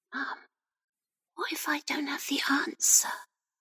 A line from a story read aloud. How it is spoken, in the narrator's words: Rebecca whispered, her eyes reddening